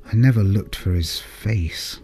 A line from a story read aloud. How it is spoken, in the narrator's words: Dad murmured